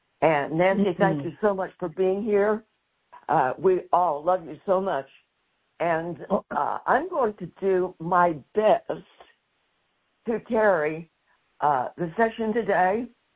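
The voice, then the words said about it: Hoarse, raspy recovering voice. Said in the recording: “my voice isn't totally back to normal. I'm still talking just a little bit on top of sandpaper.”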